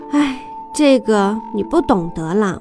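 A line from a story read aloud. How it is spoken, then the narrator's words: Sighing mother. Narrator (Chinese): 妈妈叹口气，说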